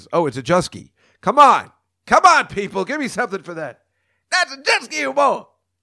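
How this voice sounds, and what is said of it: Bad Chris Rock impression. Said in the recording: “That's the worst Chris Rock imitation ever.”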